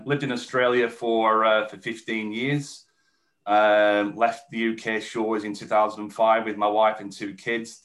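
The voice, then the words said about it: English accent. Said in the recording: “I'm English. You can tell from the accent”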